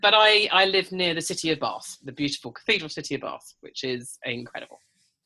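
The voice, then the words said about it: British accent. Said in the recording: “the obnoxious British accent.”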